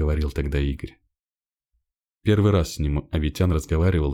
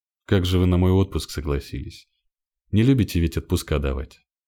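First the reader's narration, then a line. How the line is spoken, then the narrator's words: Plain. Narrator (Russian): сказал Игорь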